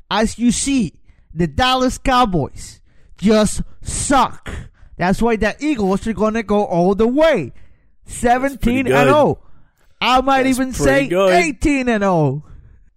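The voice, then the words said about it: Put-on Philly accent. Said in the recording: “I can't do a Philly accent.”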